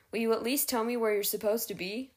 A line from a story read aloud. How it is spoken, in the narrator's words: She sighed